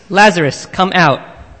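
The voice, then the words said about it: Loud calling voice. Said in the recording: “Jesus called in a loud voice”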